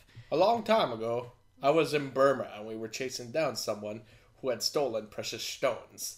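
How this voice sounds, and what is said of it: Michael Caine impression. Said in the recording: “Michael Caine accent”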